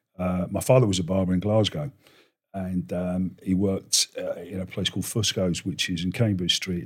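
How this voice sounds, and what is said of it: Scottish accent, a bit faded. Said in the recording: “I'm a Scot. Obviously, got a bit of a dodgy accent”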